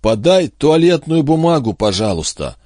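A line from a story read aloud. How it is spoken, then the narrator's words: Muffled, trembling voice. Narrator (Russian): проговорил Джинглс глухим, дрожащим голосом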